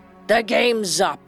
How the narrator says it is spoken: the captain said hoarsely

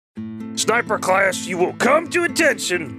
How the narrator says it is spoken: barked the burly instructor

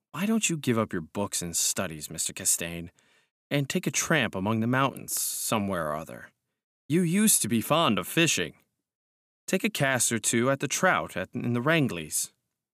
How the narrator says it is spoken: said very gently

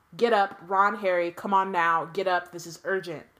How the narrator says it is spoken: Weasley was shouting

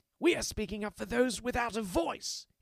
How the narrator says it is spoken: snaps

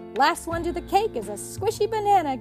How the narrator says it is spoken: giggled one of the monkeys

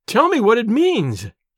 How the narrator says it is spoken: she cried despairingly

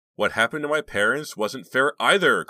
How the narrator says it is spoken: cried Justine

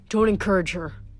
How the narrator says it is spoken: Hermes grumbled

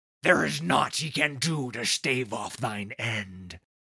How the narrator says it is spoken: growled Wolf

